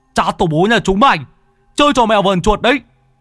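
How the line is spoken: Irritated shout. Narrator (Vietnamese): Lão Tứ bực bội quát

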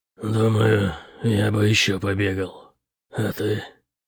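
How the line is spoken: Growling. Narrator (Russian): Кривобровый прорычал Бэтриму

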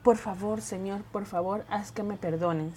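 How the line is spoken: Whispered plea. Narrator (Spanish): susurró

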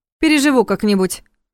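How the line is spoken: Wry snort. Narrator (Russian): хмыкнула в ответ Александра

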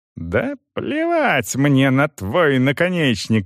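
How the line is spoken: Shrieking. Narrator (Russian): визжал он

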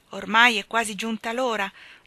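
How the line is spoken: Plain. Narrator (Italian): disse Robinson Crusoe

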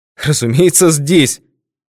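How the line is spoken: Host's exclamation. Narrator (Russian): воскликнул хозяин

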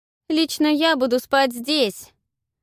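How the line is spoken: Distant shout. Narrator (Russian): крикнула с веранды Павла

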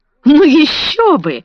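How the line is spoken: Cheerful answer. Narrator (Russian): весело отвечала Далсон

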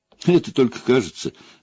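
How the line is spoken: Laughing. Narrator (Russian): рассмеялась Валентина

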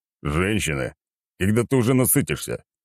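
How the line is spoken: Grumbling. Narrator (Russian): проворчал

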